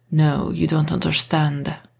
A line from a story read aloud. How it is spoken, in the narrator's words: Marcus growled